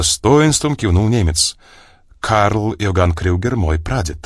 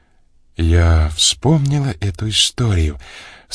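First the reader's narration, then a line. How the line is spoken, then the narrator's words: Velvety voice. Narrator (Russian): сказала Мария Сергеевна своим неподражаемым бархатным голосом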